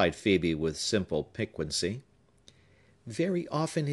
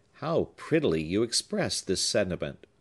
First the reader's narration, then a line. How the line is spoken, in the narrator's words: said the artist